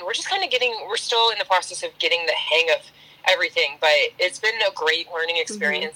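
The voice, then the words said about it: Hoarse, strained voice. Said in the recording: “Losing my voice.”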